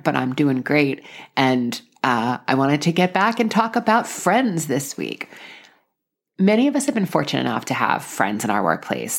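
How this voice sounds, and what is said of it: Voice sounds a little different. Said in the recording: “I still have the remaining dregs of COVID, so you may hear my voice sounds a little bit different”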